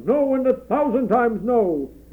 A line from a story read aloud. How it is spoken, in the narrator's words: he thundered